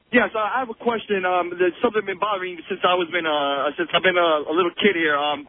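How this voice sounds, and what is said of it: Some sort of put-on accent. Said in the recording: “What's with the accent? Hold on. There's some sort of accent you're using. That's not your real voice.”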